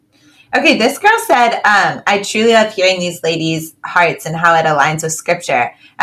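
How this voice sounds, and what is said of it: Southern California Valley Girl accent. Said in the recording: “if you grew up in Southern California, it would take you a long time to break your Valley Girl accent too”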